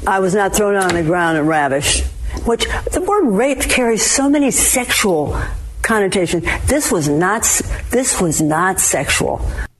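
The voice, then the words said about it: Affected British-sounding socialite accent. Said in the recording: “Listen to that fake accent that all of these pretend socialites have from New York. You're not from England.”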